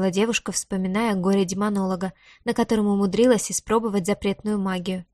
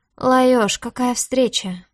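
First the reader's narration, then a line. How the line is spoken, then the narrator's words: Forced cheerful greeting. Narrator (Russian): выдавила из себя улыбку Диара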